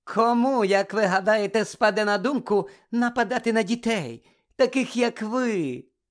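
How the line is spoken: Sickly sweet voice. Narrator (Ukrainian): запитала професорка Амбридж гидким медвяним голосом

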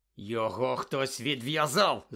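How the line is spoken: Growled. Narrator (Ukrainian): загарчав Кат

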